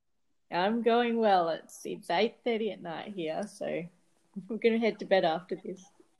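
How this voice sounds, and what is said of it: Speaks with a noticeable accent. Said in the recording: “does the accent kind of give it away? ... the accent gives it away, doesn't it? ... I think it does”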